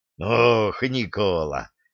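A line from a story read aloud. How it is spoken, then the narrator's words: Choking, strained. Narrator (Russian): Довясь от тяжких приступов, выдавил в ответ тот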